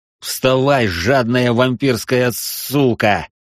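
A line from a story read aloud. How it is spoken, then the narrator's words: Hiss. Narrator (Russian): прошипел я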